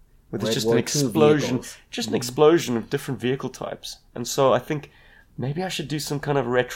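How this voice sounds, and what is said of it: Usual voice. Nothing is said of it.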